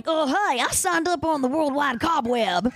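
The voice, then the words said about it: Cartoon voice of an old vampire. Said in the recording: “I do this voice on a Disney show. ... It's called Vampirina, and it's I play an 800-year-old fat vampire.”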